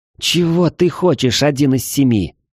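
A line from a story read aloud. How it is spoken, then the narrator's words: Growled. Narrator (Russian): прорычала Мара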